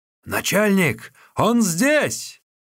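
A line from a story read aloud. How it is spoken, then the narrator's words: Several voices shouting. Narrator (Russian): несколько голосов закричали у ворот кумирни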